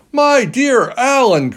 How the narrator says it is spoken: cried Yui

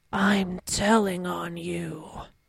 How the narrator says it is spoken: he's just like very gravely

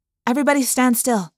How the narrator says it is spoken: I said quickly

